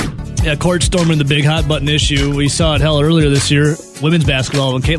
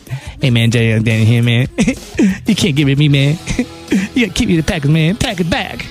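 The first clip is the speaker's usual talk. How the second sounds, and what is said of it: Imitates another person's voice. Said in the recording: “I'm still a little sick. ... I can't do my Jerry Alexander impersonation good yet. ... That's the best I can do before I start coughing.”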